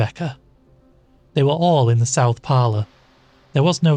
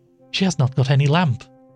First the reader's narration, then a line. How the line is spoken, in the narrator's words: said Rebecca in a shaking voice